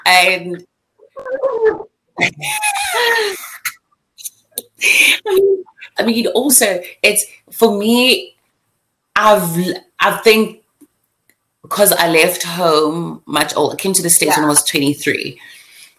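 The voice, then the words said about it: African accent. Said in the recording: “As you can hear, my freaking accent kicks in very quickly ... I am an African girl”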